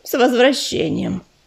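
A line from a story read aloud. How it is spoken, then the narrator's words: Grumble. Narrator (Russian): проворчала Пепелица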